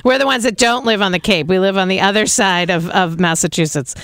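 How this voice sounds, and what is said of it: Boston accent. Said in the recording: “you just heard my Boston accent.”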